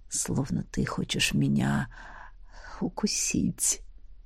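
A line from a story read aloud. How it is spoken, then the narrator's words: Whisper close to ear. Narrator (Russian): он, чуть склонившись к моему уху, шепнул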